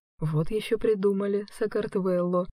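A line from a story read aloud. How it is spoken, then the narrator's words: Whispering. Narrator (Russian): шепнул Влад Юльке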